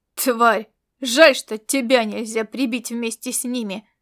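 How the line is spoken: Growling young man. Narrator (Russian): прорычал молодой мужчина с командирскими знаками отличия

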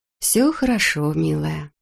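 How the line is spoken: Purring. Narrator (Russian): промурлыкала Тоби

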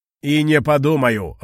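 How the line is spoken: Irritated shout. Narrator (Russian): раздраженно закричал кулон

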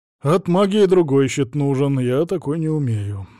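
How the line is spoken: Sigh. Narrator (Russian): вздохнул Савелий

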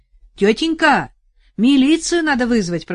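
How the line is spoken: Shouting to neighbor. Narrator (Russian): прокричал в сторону соседки Арсений

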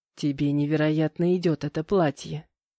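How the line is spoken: Whisper. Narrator (Russian): шепнул Витя

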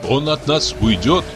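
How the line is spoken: Plain. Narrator (Russian): сказал я

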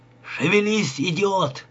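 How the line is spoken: Barked order. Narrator (Russian): гаркнул на него Бит

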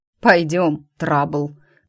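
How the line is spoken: Knowing snort. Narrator (Russian): понимающе хмыкнул Рик

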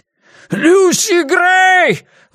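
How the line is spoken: Desperate roar. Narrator (Russian): взревел в отчаянии

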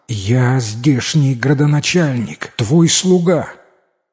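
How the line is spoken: Trembling voice. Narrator (Russian): Один из стоявших на коленях дрожащим голосом сказал

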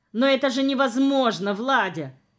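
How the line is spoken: Shouting. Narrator (Russian): закричал

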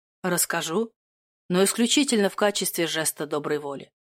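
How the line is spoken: Grumbling. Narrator (Russian): проворчал герцог

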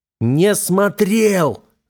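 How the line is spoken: Growl. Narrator (Russian): зарычал я

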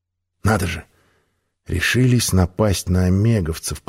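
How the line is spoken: Muttered. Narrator (Russian): пробормотал

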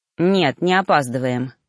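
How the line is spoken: Snorted. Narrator (Russian): фыркнул он

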